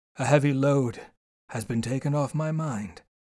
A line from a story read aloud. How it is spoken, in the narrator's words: he said